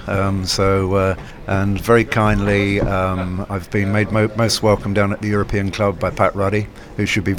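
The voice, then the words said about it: English accent. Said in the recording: “I've got an English accent”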